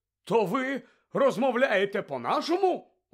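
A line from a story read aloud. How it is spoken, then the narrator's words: Indignant exclamation. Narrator (Ukrainian): обурено вигукнув Фадж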